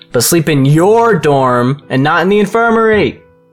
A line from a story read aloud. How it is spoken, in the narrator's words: He shouted the last part after her so she would hear him